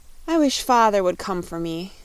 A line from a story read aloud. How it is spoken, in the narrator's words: sighed the pretty Rainbow's daughter